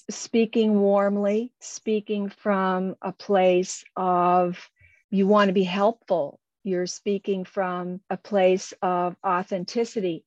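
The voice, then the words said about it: Slow, warm speech. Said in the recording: “I'm a slow talker. ... I just naturally speak this way.”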